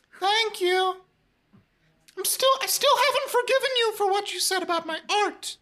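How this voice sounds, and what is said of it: Higher-pitched puppet voice imitating another person. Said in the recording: “very Mark Green sounding puppet imitation ... almost parrot his voice back and his, like, vocal tones ... I had to make it, like, a little bit higher pitched because, you know, like, it's a puppet ... You do a very good impression of me doing a voice.”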